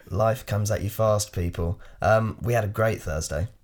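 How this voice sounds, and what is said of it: Hoarse, nearly lost voice. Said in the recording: “tell from my voice ... I seem to have lost my voice.”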